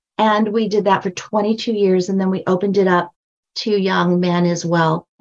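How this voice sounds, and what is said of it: High-pitched voice. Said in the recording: “I have a high voice.”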